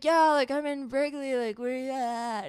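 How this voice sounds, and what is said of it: Drunk frat boy voice. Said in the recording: “is that your drunk boy voice? ... You sound like a frat boy.”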